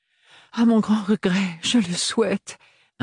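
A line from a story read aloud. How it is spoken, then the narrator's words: Pleading. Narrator (French): implora-t-elle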